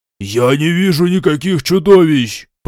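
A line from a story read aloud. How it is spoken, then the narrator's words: Demon roaring. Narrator (Russian): проревел демон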